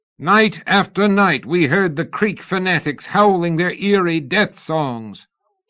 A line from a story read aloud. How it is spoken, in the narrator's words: Houston shouted